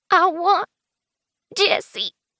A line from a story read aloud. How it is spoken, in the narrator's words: she whimpers